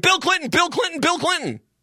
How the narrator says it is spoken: they started screaming

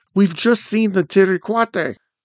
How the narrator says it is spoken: The other child continued excitedly

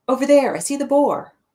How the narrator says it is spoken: Her voice sticks, and then she shouts

